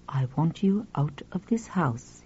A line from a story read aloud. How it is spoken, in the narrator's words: he said quietly